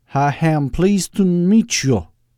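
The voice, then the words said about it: Accent wavering between Southern and Austrian. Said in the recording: “in an accent that wandered from Southern to Austrian and back again with no rhyme or reason ... Why are you talking like that? Aren't you supposed to be some kind of lowland Alabama redneck?”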